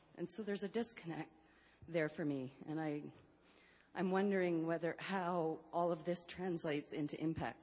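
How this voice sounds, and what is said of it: Out of breath speaking. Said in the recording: “Sorry, I'm out of breath.”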